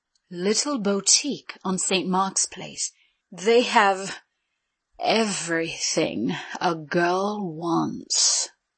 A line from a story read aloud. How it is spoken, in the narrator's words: she said in her sexiest, most enticing voice